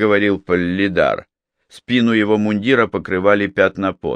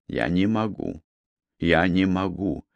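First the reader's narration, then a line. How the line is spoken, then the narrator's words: Whispering, fighting nausea. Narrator (Russian): прошептал Хирага, стараясь заставить свой мозг работать и борясь с тошнотой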